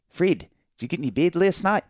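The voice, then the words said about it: Put-on New Zealand accent. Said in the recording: “trying to nail the New Zealand accent ... That's not bad, actually ... it's not bad at all ... It's terrible.”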